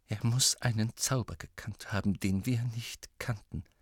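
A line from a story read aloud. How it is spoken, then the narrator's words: Whisper. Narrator (German): flüsterte McGonagall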